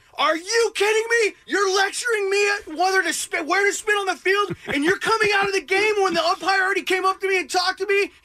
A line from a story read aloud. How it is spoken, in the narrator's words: yelling at him